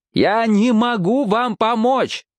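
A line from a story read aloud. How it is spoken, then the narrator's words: Shouting. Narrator (Russian): прокричал он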